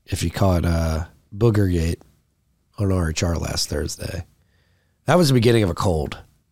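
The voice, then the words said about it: Deep, rich, sick-sounding voice. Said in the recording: “Voice sounds deep and rich. ... And sick. ... I'm sick. ... I lost my voice. ... Still getting it back now”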